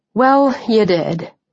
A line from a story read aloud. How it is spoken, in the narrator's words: I said with a sigh